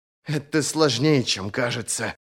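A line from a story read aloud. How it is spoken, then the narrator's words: Muttered. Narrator (Russian): пробормотала она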